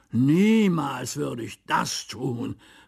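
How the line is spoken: Exclaiming. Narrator (German): rief Ludovic aus

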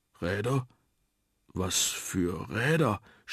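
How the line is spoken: Stammering. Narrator (German): stammelte der Mumpf

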